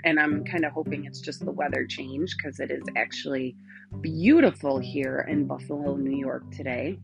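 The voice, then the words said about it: Rough, sore-throated voice. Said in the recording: “I apologize for my voice. ... I woke up with a sore throat”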